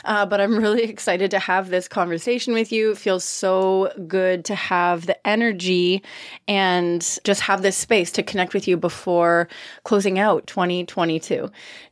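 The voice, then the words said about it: Nasal, congested voice. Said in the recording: “I sound a little nasally, it's because I am ... post COVID recovery”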